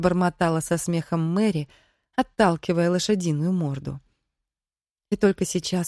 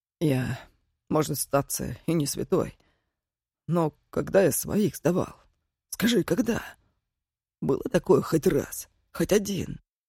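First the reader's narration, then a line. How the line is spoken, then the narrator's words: Hoarse, angry voice. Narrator (Russian): Голос Мордо был хриплым, злым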